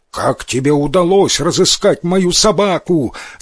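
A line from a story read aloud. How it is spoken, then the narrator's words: Shout. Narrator (Russian): закричал он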